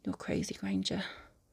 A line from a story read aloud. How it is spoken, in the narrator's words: he mutters, low from the back of his throat